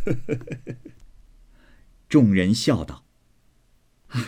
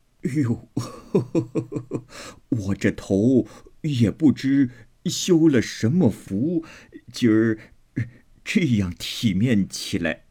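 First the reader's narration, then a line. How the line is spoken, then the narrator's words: Laughing old woman. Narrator (Chinese): 刘姥姥笑道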